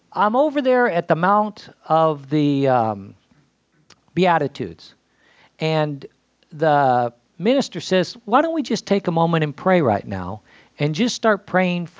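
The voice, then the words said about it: Emotional, voice choked up. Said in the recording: “gosh, I'm getting emotional here”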